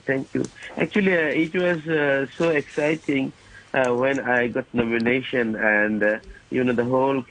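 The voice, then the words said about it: Unclear, flu-affected voice. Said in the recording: “I'm suffering by flu. Maybe my voice is not so clean.”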